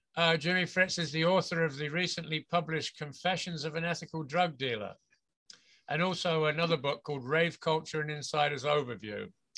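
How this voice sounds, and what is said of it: English accent. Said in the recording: “your accent. Your accent uh, is that from the UK? ... I'm from England originally. I was born and grew up in the UK”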